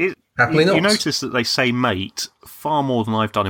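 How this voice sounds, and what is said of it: Usual voice. Nothing is said of it.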